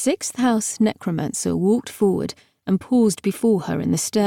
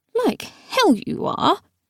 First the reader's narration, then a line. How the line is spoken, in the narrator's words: The unconscious figure sacked across Gideon's shoulder muttered